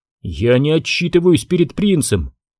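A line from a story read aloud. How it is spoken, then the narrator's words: Contemptuous exclamation. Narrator (Russian): с презрением воскликнул Джону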